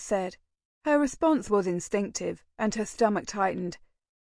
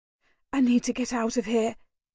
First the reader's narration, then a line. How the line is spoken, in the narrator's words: breathed, seemingly to herself